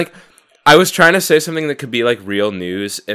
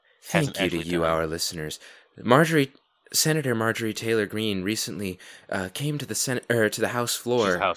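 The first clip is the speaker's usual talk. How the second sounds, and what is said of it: Mock public radio announcer voice. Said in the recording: “in my NPR voice,”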